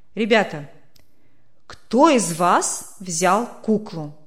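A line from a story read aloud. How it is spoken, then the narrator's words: Stern question. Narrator (Russian): строго спросил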